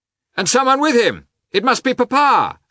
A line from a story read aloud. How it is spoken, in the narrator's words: shouted Levin